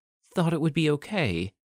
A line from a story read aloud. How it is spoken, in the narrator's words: She stammered